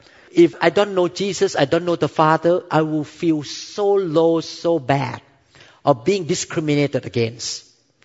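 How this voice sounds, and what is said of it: Non-native accented English. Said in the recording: “with my accent”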